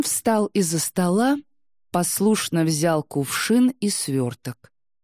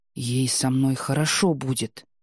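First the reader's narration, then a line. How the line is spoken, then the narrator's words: Heated pleading whisper. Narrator (Russian): горячо прошептал он, явно ища поддержки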